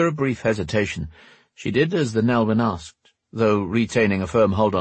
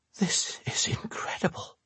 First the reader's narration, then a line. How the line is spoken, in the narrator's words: said in a half-whisper